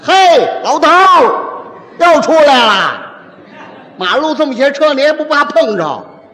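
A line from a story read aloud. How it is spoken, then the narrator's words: Shouting from afar. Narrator (Chinese): 老远喊人家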